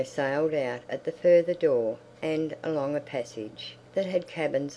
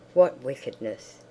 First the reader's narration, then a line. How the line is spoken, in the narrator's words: she whispered primly to Fenella